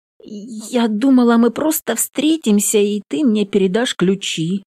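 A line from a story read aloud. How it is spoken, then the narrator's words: Uncertain. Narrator (Russian): неуверенно сообщает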